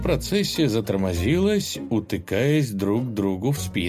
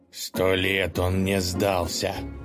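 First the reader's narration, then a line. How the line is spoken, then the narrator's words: Scornful snort. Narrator (Russian): фыркнул Колыван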